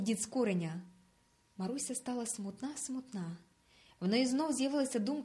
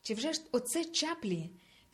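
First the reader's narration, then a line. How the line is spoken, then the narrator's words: Shouted. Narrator (Ukrainian): крикнула Маруся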